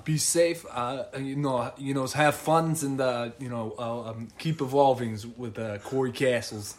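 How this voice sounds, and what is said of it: Put-on Boston accent. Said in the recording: “in the Boston accent”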